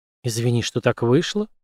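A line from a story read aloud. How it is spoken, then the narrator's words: Whispered. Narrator (Russian): прошептал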